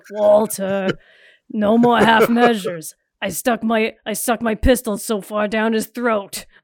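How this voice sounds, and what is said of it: Imitates a gruff TV character voice. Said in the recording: “do my mic voice ... pretending to be Mike Ehrmantraut”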